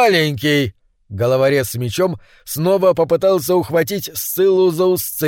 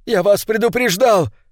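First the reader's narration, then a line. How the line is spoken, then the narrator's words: Shout. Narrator (Russian): крикнул он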